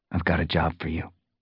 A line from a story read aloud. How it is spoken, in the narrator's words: he murmured